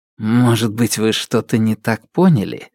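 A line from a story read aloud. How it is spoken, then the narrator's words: Gentle question. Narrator (Russian): мягко спросил Александр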